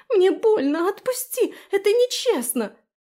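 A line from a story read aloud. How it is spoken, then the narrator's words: Scream. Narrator (Russian): завопила Фелиция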